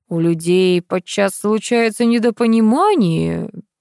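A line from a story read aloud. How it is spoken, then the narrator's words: Drawl. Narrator (Russian): протянул Витя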